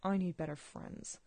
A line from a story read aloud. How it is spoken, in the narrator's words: Arthur mutters